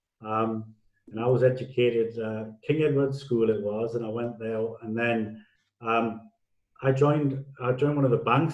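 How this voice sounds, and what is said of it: Newcastle Geordie accent. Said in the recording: “I'm from a place called Newcastle upon Tyne by my accent.”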